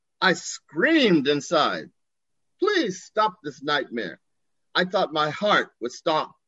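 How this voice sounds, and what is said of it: Usual voice. Nothing is said of it.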